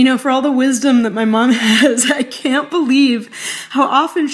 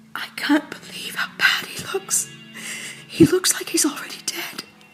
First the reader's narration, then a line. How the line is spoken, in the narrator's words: My mom's jaw just dropped, she whispered